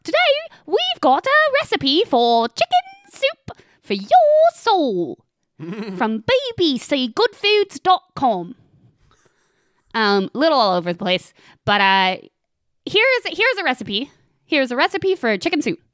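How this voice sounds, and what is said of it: Put-on Cockney 'blimey governor' voice. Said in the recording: “you have to do the whole thing in your blimey governor voice”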